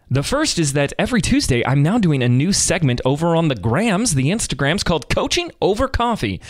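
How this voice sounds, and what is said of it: Morning TV radio host voice. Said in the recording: “as I talk in my morning TV radio voice.”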